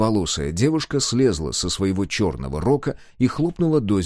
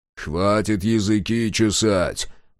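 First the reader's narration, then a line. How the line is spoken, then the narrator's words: Grumbling. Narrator (Russian): проворчал Мюррей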